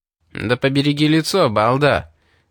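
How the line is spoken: Shouted from behind. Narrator (Russian): крикнул у него за спиной Али

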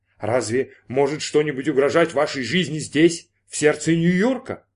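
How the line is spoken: Exclamation. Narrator (Russian): воскликнул Брин

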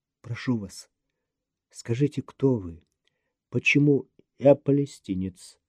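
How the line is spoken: Dull, muffled. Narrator (Russian): глухо ответил ей Обнорский

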